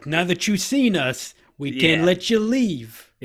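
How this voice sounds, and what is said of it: Yoda with a Jersey accent. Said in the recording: “It's gonna be a Jersey accent Yoda who's like”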